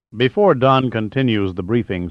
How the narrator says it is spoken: said Jordan

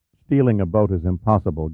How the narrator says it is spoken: Gunn said flatly

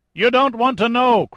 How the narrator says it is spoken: Craven yelled at him

